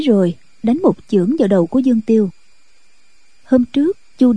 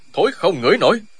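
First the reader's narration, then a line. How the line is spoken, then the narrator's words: Angry loud shout. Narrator (Vietnamese): Chu Điên nghe vậy thì cá giận, quát to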